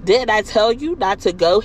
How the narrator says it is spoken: he asked

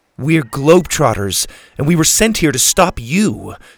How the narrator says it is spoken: Suzie barked

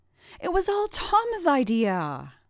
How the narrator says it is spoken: Alan cried out

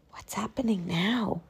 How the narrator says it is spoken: I whispered

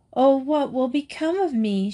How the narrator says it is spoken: she cried

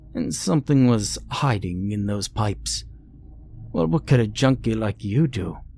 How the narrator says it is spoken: diversely grumbled

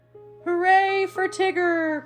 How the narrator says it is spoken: cried Pooh

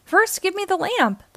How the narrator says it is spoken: the old man shouted

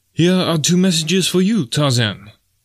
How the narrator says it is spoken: cried Deonaut

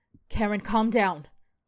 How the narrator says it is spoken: Karen sneers

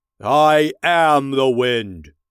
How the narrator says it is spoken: thundered

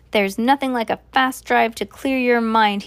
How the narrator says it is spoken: he shouted

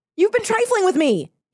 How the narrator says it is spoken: he cried

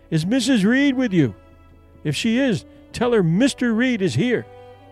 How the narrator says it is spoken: they called out

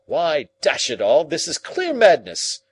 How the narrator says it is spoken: cried Lord John

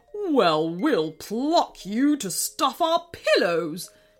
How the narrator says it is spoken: sneered King Krusty in reply

